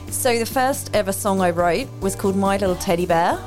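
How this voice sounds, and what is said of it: Put-on Kiwi or Australian accent. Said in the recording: “We did decide we're going to be Kiwi and Australian for the rest of the interview ... I think I'm going to lose the accent soon, but I will try.”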